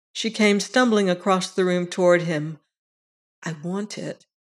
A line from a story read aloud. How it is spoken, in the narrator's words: she said quietly